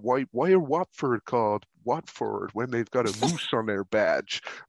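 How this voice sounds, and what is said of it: Poorly done American accent. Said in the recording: “you got these Americans like ... I've absolutely butchered that uh, accent.”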